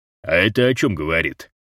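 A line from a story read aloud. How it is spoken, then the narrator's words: Lecturing question. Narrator (Russian): менторским тоном осведомился Розе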